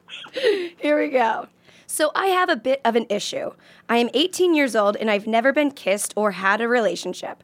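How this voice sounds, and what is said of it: Strained, worn-out voice. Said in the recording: “I was supporting them with my voice. ... that's why I sound like a cockroach.”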